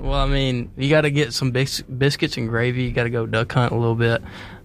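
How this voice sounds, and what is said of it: Put-on Southern country accent. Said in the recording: “Will you do a country accent, what you think we sound like here? ... show her how it's done”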